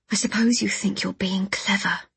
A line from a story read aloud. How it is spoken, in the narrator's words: I murmured